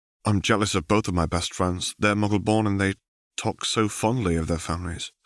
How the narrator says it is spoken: sighed

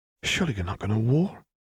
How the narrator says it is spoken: Isabel whispered

